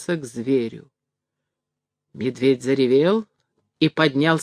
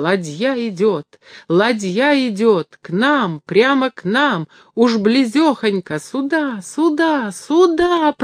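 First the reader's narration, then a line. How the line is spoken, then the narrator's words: Very loud excited shouting. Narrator (Russian): продолжал дикарь необыкновенно громким голосом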